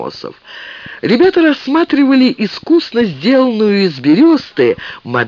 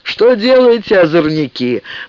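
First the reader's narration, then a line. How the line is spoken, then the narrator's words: Mock-stern question. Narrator (Russian): нарочито строго спросил Амосов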